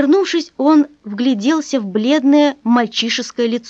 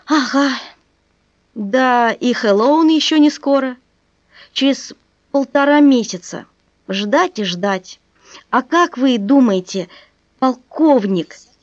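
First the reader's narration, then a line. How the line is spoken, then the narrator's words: Sorrowful sighing boy. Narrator (Russian): вздохнул мальчик совсем горестно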